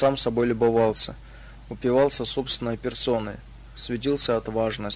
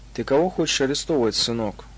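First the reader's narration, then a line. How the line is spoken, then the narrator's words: Calm, level voice. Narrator (Russian): Спокойно, не повышая голоса, поинтересовался полковник из внутренних войск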